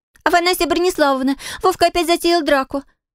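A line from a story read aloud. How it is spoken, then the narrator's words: Panicked squeak. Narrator (Russian): пропищала она в панике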